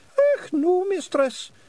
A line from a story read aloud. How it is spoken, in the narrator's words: said, nervously